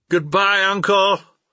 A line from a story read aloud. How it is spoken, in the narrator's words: I cried